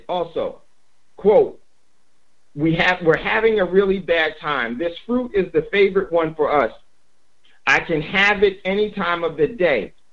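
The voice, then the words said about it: Strained, nearly lost voice. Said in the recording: “my voice is gone”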